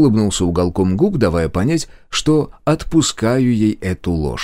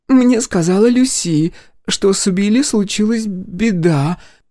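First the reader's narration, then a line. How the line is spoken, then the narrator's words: Uncertain. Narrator (Russian): неуверенно бросила Дороти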